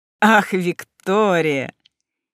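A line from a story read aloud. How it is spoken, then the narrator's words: Loud infectious laughter. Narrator (Russian): Ястреб громко и заразительно рассмеялся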